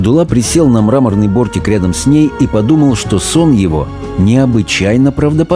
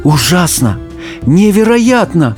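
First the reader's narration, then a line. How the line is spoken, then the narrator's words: Exclaimed. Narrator (Russian): воскликнула она наконец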